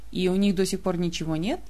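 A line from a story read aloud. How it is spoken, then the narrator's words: Quiet. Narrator (Russian): Все так же тихо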